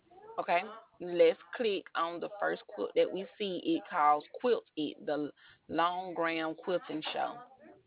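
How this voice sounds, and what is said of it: Beautiful accent. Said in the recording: “I love your accent. It's so beautiful.”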